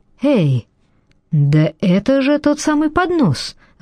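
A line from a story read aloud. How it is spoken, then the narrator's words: Exclaimed. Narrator (Russian): воскликнул Фауста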